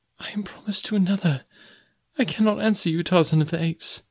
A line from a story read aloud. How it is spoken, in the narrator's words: she cried